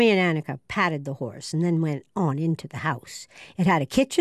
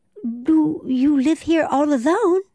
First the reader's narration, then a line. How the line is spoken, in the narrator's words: Annika said anxiously